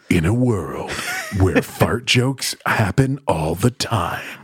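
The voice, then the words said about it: Movie trailer announcer voice. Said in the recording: “That was your announcer voice.”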